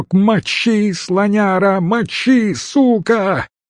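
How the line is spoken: Hysterical yelling. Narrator (Russian): Истошно орал кто-то

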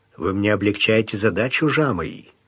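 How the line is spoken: Quiet. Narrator (Russian): сказал Бангал тихонько

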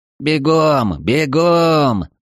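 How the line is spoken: Shouted. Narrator (Russian): закричал Эридани

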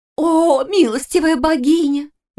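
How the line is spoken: Sudden hysterical exclamation. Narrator (Russian): внезапно истерично воскликнула Лиска

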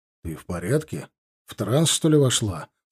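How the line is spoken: Asked in an undertone. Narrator (Russian): спросил я вполголоса

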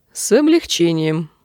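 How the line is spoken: Dry. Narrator (Russian): сухо молвила Арианна

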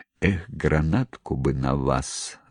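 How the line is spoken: Sighed. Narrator (Russian): вздохнул Громов

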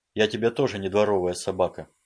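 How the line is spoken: Plain. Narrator (Russian): ответил он

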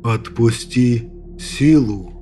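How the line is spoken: Hollow sepulchral voice. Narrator (Russian): Глухим замогильным голосом произнес Аснаб

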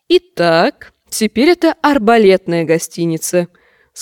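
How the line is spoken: Plain. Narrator (Russian): сказал Серхиль

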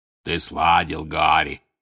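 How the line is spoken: Booming bass. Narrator (Russian): басил Хагрид

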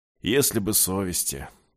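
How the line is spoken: Gruff grumble. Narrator (Russian): буркнул тот

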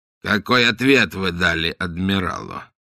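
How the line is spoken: Composed, restrained question. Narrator (Russian): взяв себя в руки, спросил

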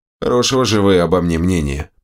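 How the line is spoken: Grumbling. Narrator (Russian): проворчал я

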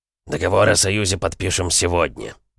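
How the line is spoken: Grumbled. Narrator (Russian): наконец буркнул он

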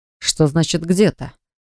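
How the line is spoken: Irritated male question. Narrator (Russian): Раздраженно спросил мужчина

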